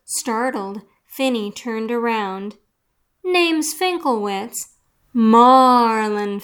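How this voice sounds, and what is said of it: Usual voice. Nothing is said of it.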